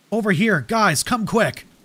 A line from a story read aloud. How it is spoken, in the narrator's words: Mark's shout cut through the dense air, urgent and edged with terror